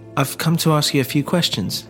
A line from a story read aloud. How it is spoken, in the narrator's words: he said